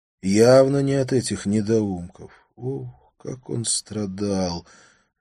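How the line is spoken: Labored pained mutter. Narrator (Russian): Люсендер с трудом пробормотал что-то с мучительной гримасой

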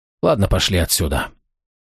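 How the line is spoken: Hoarse, near hysterical. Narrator (Russian): нотку зарождающейся истерики, Чацкий лишь хрипло вздохнул и добавил

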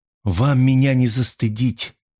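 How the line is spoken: Through clenched teeth. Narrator (Russian): процедила она

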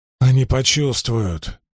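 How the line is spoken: Groaned. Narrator (Russian): простонал Льюс Террин

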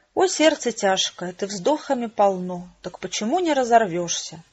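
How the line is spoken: Sad whisper. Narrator (Russian): печально прошептал Шекспир

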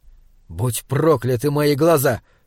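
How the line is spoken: Spiteful. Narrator (Russian): злобно сказал Слудик

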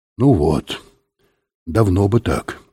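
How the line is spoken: Sad, smiling. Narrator (Russian): сказал Жилин, печально улыбаясь

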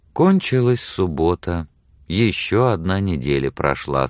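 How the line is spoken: Sad. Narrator (Russian): сказала печально Мэри

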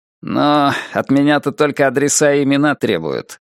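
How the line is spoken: Grumbling. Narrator (Russian): проворчал Гарри

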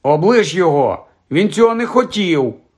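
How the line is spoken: Shouted. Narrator (Ukrainian): крикнула Джинні

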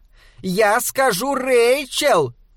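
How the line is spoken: Shouting after someone. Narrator (Russian): крикнула она вдогонку

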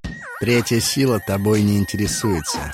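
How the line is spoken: Plain. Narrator (Russian): сказал Ларт

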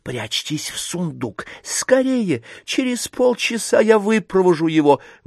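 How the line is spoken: Nobleman's whisper. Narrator (Russian): Шепотом вельможи

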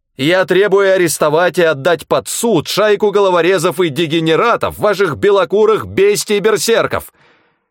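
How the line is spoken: Yelling into phone. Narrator (Russian): заорал в трубку Тагоми

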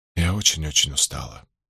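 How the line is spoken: Quiet. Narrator (Russian): тихо произнесла Рэйчел

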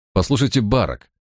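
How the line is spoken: Angry. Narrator (Russian): сердито произнес я

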